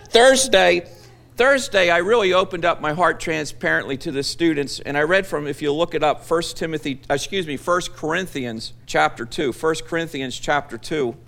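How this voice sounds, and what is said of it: Speaks with a noticeable accent. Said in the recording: “I really like your accent.”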